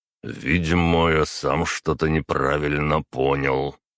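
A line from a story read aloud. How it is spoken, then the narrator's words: Emperor speaking dully, uninterested. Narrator (Russian): глухо произнес император, враз теряя интерес к разговору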